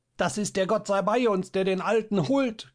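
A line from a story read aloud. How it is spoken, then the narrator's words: Shrieking. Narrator (German): kreischte da eine Stimme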